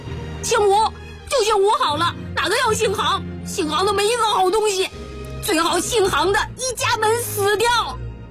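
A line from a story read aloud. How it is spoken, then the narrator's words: Loud shout. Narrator (Chinese): 嘉乔却大叫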